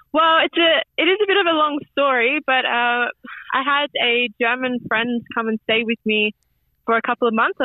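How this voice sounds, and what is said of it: Australian accent. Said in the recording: “I hear a familiar Australian accent.”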